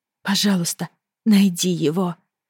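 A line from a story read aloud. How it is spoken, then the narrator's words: Pleading. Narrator (Russian): взмолилась я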